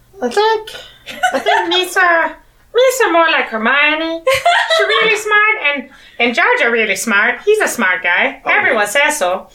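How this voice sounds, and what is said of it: Jar Jar Binks character voice. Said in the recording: “I'm losing the accent. I can't do this much longer.”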